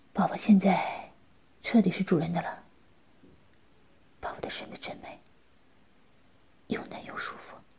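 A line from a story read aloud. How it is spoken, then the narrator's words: Tender, gentle. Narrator (Chinese): 在他耳边温柔地说道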